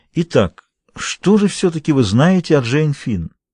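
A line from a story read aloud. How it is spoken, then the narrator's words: Gentle. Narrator (Russian): мягко продолжал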